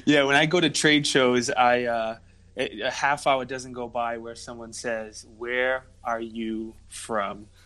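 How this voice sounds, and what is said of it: Rhode Island East Coast accent. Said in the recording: “I thought I recognized that accent... it's definitely not Jersey or New York... Rhode Island has its own accent. We're not a Mass accent. We're not New York.”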